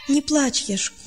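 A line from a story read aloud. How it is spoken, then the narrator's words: Tearful consoling. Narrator (Russian): утешал сквозь слезы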